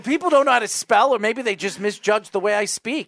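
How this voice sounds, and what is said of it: New York accent. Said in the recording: “Maybe it's my New York accent.”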